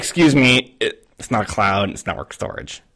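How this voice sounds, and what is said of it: Nerdy put-on voice. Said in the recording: “my nerd voice”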